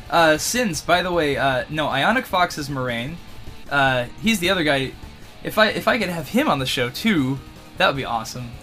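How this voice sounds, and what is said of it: Strained, tired voice giving out. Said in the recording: “my voice is giving out.”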